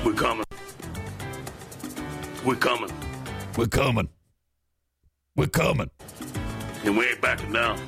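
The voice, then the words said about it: Impersonation of another man's voice. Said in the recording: “Can you impersonate him? He's an easy he's an easy one to impersonate.”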